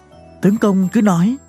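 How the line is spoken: Trembling whisper. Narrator (Vietnamese): Lãnh Tuyết Quyên vẫn run rẩy, nàng thì thầm

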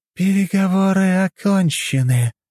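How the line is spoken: Unnatural voice. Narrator (Russian): неестественным голосом сказала она

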